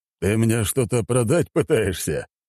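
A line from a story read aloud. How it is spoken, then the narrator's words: Old man chuckling. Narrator (Russian): хохотнул старик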